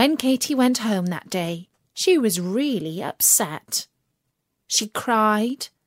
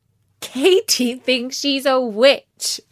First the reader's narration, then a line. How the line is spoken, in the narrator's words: they laughed